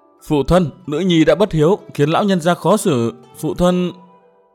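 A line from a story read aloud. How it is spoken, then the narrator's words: Sobbing, choked voice. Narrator (Vietnamese): Mai Lãnh Tuyết khóc thút thít, càng khóc to hơn, nghẹn ngào nói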